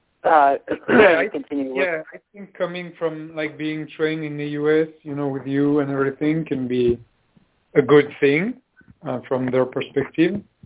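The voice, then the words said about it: French accent. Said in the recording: “You've got such a great French accent.”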